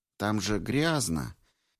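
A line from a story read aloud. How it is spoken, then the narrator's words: Gentle, patronizing explanation. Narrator (Russian): Мягко, словно несмышленому младенцу, пояснил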